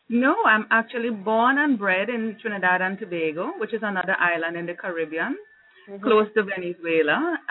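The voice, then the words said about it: Trinidadian-Jamaican blended Caribbean accent. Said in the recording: “they hear that mixed accent, and they're like, no, you're picking up the Jamaican accent ... It's a nice blend”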